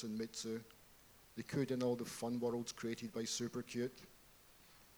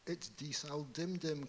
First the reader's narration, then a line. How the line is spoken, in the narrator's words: cried Mitsu